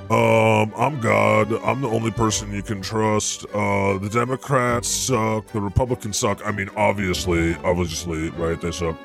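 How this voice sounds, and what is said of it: Imitates a progressive streamer's voice. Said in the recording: “do my best impersonation of... A very progressive streamer or podcaster.”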